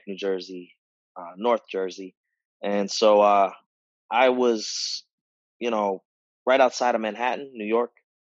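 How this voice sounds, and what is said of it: North New Jersey accent. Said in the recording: “He's from New Jersey. ... I've lost a little bit of my accent, but I really can't hide it”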